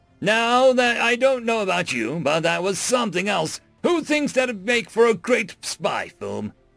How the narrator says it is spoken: Audience shouts

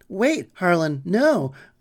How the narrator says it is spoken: cried

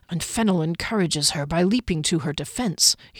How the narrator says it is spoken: he added in a mutter

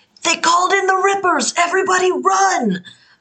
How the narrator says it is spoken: I'm going to shout over the banister

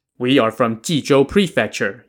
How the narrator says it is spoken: Yang Xiong answered

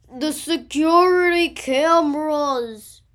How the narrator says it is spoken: yelled Markus

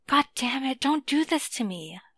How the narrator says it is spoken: Alik hisses

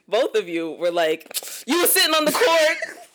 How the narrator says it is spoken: They yelled at me

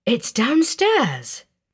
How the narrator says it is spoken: she asked, her voice full of wonder

